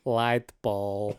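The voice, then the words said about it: Imitates Gru's cartoon villain accent. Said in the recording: “Let's hear your Gru accent ... That's pretty good. That's a good Gru. ... Good Gru.”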